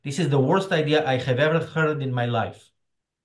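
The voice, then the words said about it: Put-on Greek or Israeli accent. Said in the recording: “I believe this is a precise Greek accent ... That's an Israeli accent, but it's an accurate”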